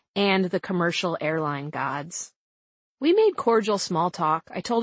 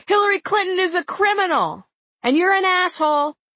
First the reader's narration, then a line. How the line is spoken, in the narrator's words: Brown Loafers yelled back